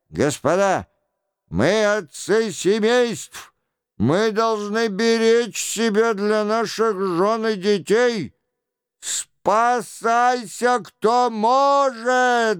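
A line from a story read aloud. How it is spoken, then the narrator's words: Guard chief yelling. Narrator (Russian): завопил начальник караула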